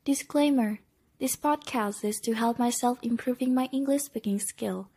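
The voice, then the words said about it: Weird non-native accent, mispronunciations. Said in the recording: “weird accent, kinda, mispronunciation”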